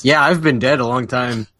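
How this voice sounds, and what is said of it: Imitates another person's voice. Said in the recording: “I'm doing the Matt voice.”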